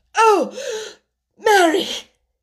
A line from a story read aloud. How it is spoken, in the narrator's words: he cried out with a half sob